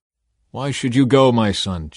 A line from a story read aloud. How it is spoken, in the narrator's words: Joab replied